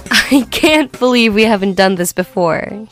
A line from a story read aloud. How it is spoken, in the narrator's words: he laughed